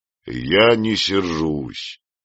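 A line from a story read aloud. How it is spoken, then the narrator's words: Conciliatory after brief pause. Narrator (Russian): сказал Кочрэнь, помолчав немного, более примирительным тоном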